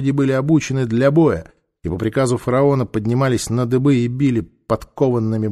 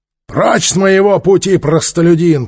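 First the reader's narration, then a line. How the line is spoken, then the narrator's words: Growl. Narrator (Russian): прорычал Трок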